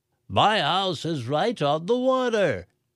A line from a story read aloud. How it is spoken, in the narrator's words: the coffee shop owner yelled